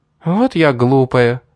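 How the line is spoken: Laughing. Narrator (Russian): рассмеялась Дарья

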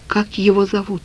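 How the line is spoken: Quiet question. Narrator (Russian): спросил я Олю негромко

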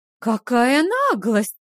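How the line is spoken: Exclamation. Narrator (Russian): воскликнула Лиа Руан

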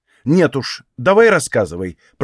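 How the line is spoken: Irritated. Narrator (Russian): произнесла раздраженно

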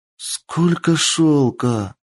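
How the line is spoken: Delighted breathy exclamation. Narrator (Russian): Восторженно выдохнула Кицунэ

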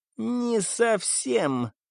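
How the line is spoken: Creaky voice. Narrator (Russian): проскрипел Маклер

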